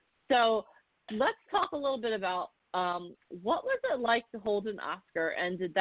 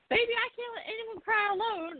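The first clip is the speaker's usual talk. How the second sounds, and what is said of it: Poorly done Southern accent. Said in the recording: “I totally mangled a Southern accent”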